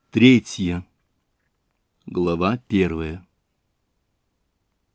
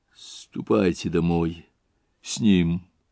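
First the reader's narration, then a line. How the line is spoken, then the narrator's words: Halting, broken voice. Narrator (Russian): проговорил он прерывистым голосом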